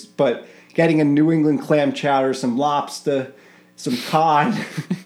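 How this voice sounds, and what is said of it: Attempted Boston accent. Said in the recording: “You can do a Boston accent. ... that was my attempt at a Boston accent.”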